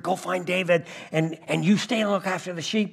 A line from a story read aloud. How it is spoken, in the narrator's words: Jesse whispered